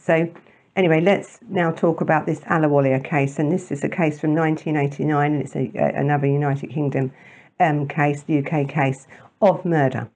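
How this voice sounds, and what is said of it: London accent. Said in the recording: “It's this London accent that often gets in the way of things like that.”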